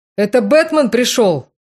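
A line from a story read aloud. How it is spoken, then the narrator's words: Muffled shout after coughing. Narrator (Russian): Закашлялся и крикнул, прикрывая рот ладонью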